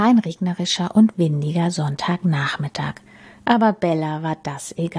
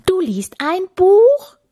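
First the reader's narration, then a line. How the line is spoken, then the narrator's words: Shout. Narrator (German): schrie Kapitän Kugelbauch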